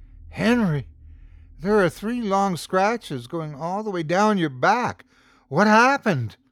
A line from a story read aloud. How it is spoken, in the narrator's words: gasped